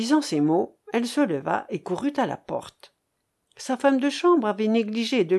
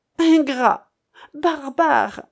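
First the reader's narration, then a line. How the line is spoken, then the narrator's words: Exclamation. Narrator (French): s'écria-t-elle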